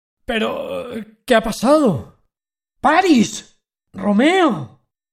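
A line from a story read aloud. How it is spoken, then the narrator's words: Grief-stricken friar exclaiming. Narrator (Spanish): exclamó el fraile desolado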